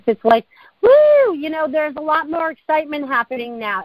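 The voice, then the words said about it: Excited, energetic hooting delivery. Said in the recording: “you can probably hear that in my voice, and I feel like I'm hooting and hollering a lot more”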